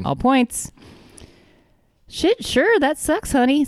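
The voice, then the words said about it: Clumsy put-on Southern-sounding accent. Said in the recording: “I don't know what that accent was. ... he's a flaming homosexual, ... So I'm trying to put on that accent, which is, I'll get there eventually, but you know I'm not great at accents ... It sounded to me more like he's from like the city of Steel Magnolias. ... Oh, God, no, he's not Southern, although I can see ... That's where I got that accent from.”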